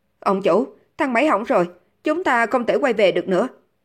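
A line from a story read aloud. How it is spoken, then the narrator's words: Trembling voice. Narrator (Vietnamese): Hắn ta dùng giọng run rẩy nói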